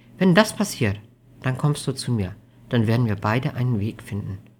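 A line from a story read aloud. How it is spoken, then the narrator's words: Gentle voice. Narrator (German): Undine meinte mit sanfter Stimme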